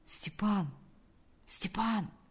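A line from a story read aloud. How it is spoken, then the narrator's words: Quiet call. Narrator (Russian): позвал он тихо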